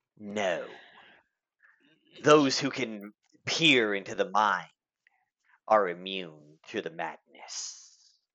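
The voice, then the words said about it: Creepy old pirate character voice. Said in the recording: “his voice sounds a little mad ... I was going more for, like, creepy old pirate”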